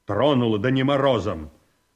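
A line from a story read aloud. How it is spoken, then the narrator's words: Clipped. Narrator (Russian): отрывисто сказал Павел Антонович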